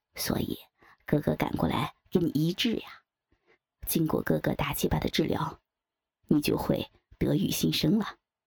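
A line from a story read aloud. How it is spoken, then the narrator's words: Laughing. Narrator (Chinese): 他一边温柔地吻着他的脸颊，一边笑道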